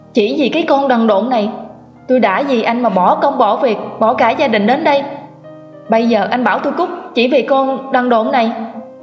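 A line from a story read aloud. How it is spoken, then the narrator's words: Woman screaming. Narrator (Vietnamese): Cô gào lên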